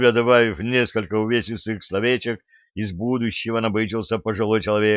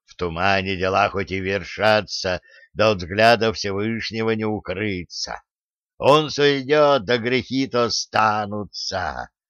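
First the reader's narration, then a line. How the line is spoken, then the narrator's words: Hissed through bared teeth. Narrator (Russian): Оскалившись, прошипел Волху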